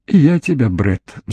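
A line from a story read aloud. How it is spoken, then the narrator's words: Sigh. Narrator (Russian): вздохнула она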